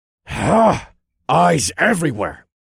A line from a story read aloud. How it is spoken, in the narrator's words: The asshole snarled to his companion